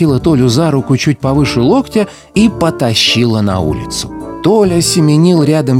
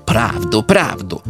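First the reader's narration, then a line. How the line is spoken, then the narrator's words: Annoyed old woman grumbling. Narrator (Russian): проворчала с досадой старуха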